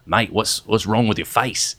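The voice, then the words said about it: Bad put-on Australian accent. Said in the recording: “I had a terrible Australian accent”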